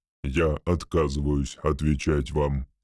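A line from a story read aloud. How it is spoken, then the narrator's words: Rude declaration. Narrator (Russian): грубо заявил Ричард Дэниел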